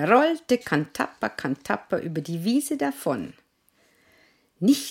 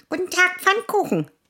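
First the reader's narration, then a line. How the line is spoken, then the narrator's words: Mouse squeaking. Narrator (German): quiekte die Maus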